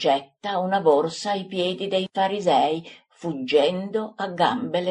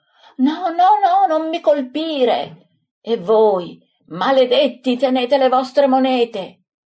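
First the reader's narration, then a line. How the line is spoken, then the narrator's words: Screaming man. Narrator (Italian): L'uomo urlando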